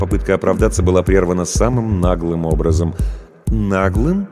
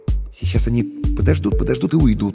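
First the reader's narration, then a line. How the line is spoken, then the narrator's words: Uncertain guess. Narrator (Russian): неуверенно предположил я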